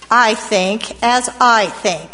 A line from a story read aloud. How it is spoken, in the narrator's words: said a man